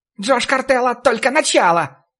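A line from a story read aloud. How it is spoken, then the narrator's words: Unexpectedly high shrill squeal. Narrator (Russian): Неожиданно высоким голосом взвизгнул толстяк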